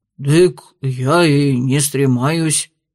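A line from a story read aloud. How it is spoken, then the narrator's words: Grumbling man. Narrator (Russian): проворчал мужчина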